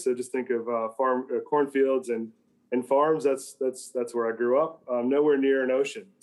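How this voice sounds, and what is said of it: American Midwestern accent. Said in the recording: “you can tell from the accent. I come from America, from the Midwest.”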